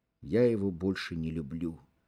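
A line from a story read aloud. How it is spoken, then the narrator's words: Whisper. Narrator (Russian): прошептала Феня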